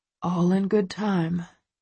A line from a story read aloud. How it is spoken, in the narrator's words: he murmurs